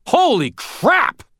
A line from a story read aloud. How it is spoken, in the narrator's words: Thomas yelled